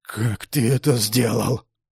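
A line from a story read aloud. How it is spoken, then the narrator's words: Breathless wheeze. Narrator (Russian): прохрипел, пытаясь восстановить дыхание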